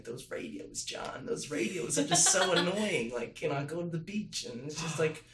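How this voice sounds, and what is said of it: New York accent impression. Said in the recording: “Morton Feldman's, you know, and it's like, you know, New York accent”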